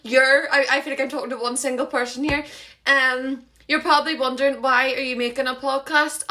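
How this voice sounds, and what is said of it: Northern Irish accent. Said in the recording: “it's in Northern Ireland, as you can probably tell by my terrible accent”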